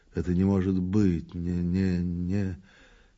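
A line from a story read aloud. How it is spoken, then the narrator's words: Anxious muttering to himself. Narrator (Russian): В одиночестве, полный, по-видимому, важных и тревожных дум, он обмяк, постарел и говорил сам с собой, бормоча и покусывая губы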